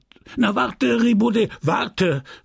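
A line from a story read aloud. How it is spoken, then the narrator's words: Angry shouting clergyman. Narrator (German): schrie der Geistliche mit zorniger Stimme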